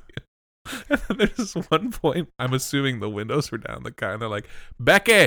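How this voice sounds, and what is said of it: Usual voice. Nothing is said of it.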